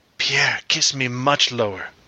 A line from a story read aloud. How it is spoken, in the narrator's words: Marie leans closer to his ears and whispers